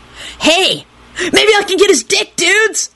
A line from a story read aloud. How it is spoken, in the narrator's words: he yelped happily and let out a maniacal cackle